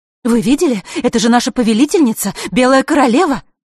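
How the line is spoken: Excited whispering fairies. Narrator (Russian): Взволнованно шептались между собой феи

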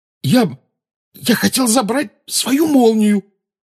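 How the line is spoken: Hoarse croak. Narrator (Russian): прохрипел Гарри

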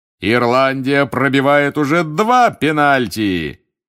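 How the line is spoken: Bellowing. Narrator (Russian): гаркнул Бэгман

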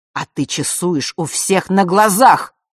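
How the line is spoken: Angry older man. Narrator (Russian): зло продолжил Нортон-старший

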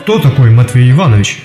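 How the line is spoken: Monster's deep bass. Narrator (Russian): пробасило чудище

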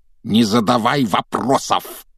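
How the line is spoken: Barking uncle. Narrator (Russian): рявкнул дядя Вернон

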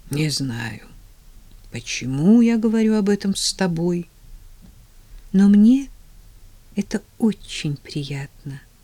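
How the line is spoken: Quiet reply. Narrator (Russian): тихо отозвалась она

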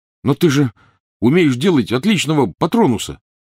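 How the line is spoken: Protesting exclamation. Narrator (Russian): протестующе воскликнул Рон

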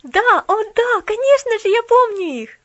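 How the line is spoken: Exclamation. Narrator (Russian): воскликнула Поллианна

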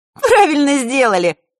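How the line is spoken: Laughing. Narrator (Russian): хохотнула Захарра

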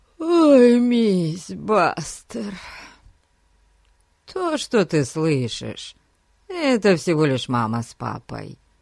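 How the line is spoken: Sleepy voice. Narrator (Russian): сонным голосом проговорил Фати

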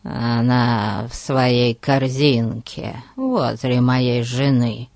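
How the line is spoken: Hoarse, then coughing. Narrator (Russian): хрипло добавил Ларкин и закашлялся

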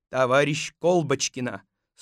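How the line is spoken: Stern. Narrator (Russian): строго сказал он

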